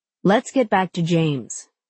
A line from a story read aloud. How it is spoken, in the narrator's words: she says